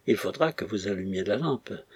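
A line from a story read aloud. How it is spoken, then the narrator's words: Softly. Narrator (French): reprit-il doucement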